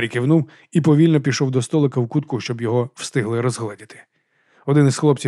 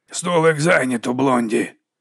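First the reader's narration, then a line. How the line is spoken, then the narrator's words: Hoarse booming voice. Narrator (Ukrainian): Голос був хрипкий, ніби вітер гудів у димарі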